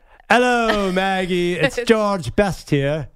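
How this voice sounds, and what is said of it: Bad put-on British accent. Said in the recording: “your bad British accent ... so bad”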